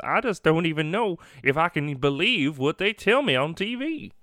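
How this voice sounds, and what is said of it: Dumb American accent impersonation. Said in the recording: “my like dumb American impersonation”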